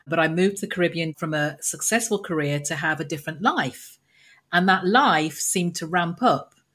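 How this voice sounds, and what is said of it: English accent. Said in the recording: “You can tell by my accent, I'm English born”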